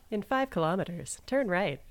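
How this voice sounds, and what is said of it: Robotic GPS navigation voice. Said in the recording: “I do the voice. ... You could have a future in voice acting ... Only as robots.”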